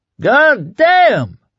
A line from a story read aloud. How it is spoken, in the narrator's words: Norm Bruette shouted, almost screamed